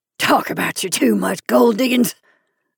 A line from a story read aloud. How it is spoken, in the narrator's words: the man snorted contemptuously